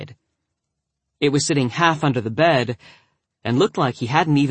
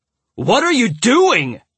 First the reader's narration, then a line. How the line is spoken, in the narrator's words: Miller roared behind me